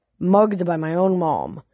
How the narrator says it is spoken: she muttered

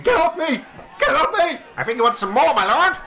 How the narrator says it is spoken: His face is going red, and he starts screaming

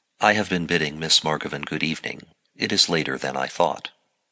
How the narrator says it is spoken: said, as calmly as I could

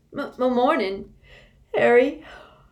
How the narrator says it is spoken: yawned Tonks

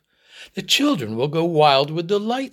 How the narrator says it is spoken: said his wife happily

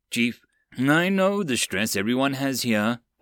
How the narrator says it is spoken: Ford sighed

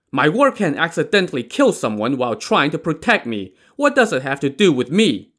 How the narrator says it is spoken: Chai Jin shouted indignantly

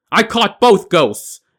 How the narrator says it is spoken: shouted

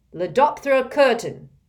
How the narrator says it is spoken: barked

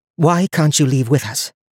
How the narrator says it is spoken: Donia repeated calmly

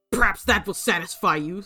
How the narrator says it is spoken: snarled Bellingham with hate and fear

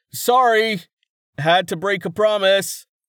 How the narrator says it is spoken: Rayton yelled back

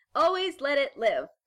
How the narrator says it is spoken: Carmen added a bit more loudly

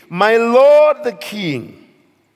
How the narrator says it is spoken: called out to Saul, saying

